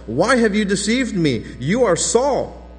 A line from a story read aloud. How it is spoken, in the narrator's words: the woman cried out with a loud voice, and the woman said to Saul